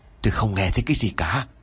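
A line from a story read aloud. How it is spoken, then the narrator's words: Hoarse voice. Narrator (Vietnamese): Một giọng nói khàn khàn trả lời ông Nam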